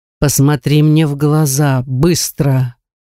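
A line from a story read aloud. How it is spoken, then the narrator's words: Commanding voice. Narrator (Russian): Властным голосом отдал он мне приказ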